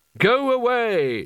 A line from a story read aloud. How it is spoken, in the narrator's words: shouted the wizards